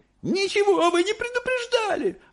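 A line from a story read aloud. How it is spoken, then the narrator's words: Yelling. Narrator (Russian): орала миссис Бригард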